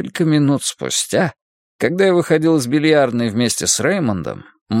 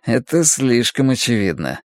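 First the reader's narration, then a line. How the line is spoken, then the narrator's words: Mutter. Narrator (Russian): пробормотал мой спутник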